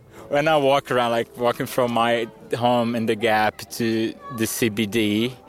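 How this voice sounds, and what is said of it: Brazilian accent, mistaken for French. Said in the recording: “the only people that can tell I'm Brazilian are Queenslanders. Even people from Alice, they would normally think I'm French for my accent.”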